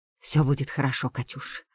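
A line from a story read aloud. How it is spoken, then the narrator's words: Whispering. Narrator (Russian): шептала она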